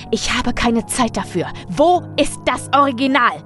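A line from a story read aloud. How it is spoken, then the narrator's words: Roar. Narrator (German): brüllte er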